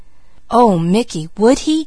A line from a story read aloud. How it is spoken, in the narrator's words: gasped Peaches